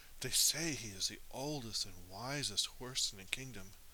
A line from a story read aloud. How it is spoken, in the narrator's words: the tan horse, whispered to the girl